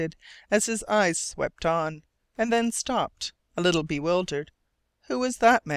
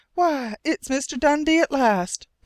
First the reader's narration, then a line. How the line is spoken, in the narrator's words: Penny cried